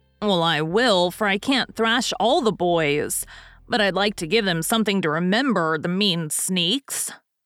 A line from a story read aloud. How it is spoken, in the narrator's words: growled Stuff, still in a fume